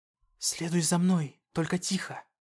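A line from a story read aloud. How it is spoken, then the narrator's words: Whisper. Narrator (Russian): прошептала она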